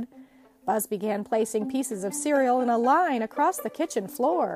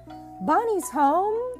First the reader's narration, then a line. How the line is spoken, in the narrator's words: they cried